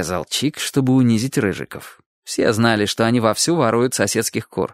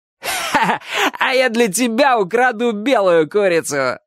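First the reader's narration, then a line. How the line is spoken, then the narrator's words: Laughing. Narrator (Russian): сказал один из них, смеясь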